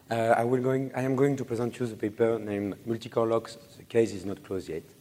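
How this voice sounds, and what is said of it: Voice affected by a cold. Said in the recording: “Sorry for my voice. I am some cold.”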